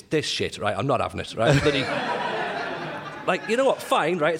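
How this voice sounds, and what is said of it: Northeast English accent. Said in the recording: “You can probably tell from my accent, I'm not from Thirsk, right? I'm from up the northeast.”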